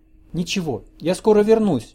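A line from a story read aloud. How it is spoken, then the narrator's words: Comforting. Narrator (Russian): утешила она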